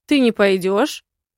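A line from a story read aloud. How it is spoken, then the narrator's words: Shouting. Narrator (Russian): крикнул он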